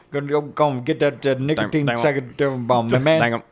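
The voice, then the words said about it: Imitates a cartoon character's voice. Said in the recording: “It's my Boomhauer impersonation.”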